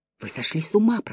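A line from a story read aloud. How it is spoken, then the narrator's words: Whispered. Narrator (Russian): прошептал Вайланд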